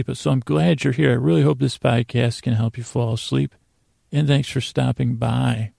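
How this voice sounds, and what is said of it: Soft, slow, slightly creaky voice. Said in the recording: “My voice is on the creaky side of dulcet ... I'm going to talk soft. I'm going to talk slow.”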